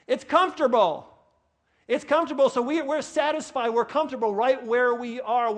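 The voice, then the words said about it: New York accent. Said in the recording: “I get worked up sometimes, you may notice, and my New York accent comes back in”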